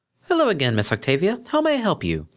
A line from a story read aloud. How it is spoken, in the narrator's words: the reception pony asked cheerfully